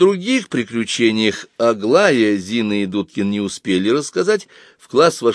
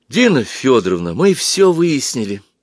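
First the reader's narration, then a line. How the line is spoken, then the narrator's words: Excited. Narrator (Russian): взволнованно заговорила Зоя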